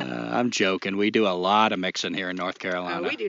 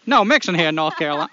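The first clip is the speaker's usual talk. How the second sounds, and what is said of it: Put-on Maine accent. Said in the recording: “Why am I saying that in a Maine accent?”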